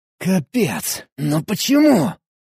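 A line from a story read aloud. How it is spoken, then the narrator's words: Hissing. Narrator (Russian): Прошипел я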